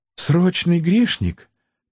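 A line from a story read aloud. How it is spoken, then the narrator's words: Sad sigh. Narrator (Russian): печально вздохнула Азриэла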